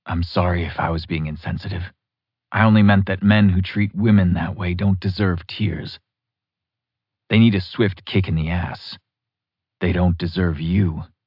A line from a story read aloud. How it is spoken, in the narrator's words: He murmured